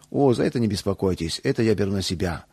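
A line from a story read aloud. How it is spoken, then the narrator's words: Plain. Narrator (Russian): ответил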